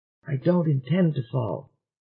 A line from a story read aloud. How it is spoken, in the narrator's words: whispered Dennison